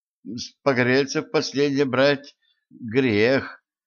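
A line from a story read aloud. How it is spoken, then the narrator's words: Uncertain. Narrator (Russian): Неуверенно добавила она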